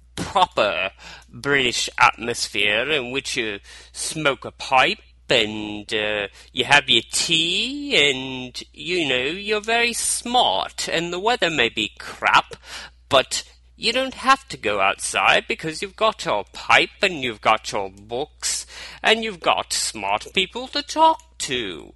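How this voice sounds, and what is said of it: Bad put-on British accent. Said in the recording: “I'm sorry, UK, for the bad accent”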